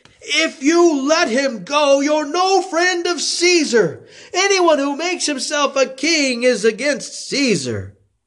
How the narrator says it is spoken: the Jews shouted

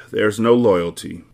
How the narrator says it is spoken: Monk sighs

